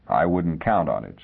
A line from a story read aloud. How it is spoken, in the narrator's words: said Leamy dryly